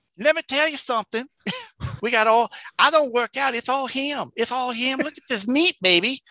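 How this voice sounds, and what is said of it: Imitates another person's voice. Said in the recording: “Pretty good impression.”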